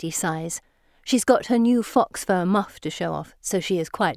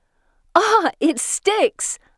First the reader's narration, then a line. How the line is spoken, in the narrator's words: I shout